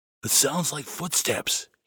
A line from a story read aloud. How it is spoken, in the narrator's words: he whispered to Spot